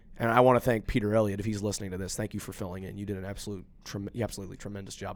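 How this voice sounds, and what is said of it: Voice sounds sick. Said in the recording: “I was sick, as you might can tell by my voice.”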